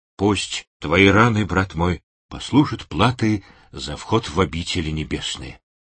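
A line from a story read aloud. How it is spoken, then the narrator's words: Quiet male voice. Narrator (Russian): тихо произнес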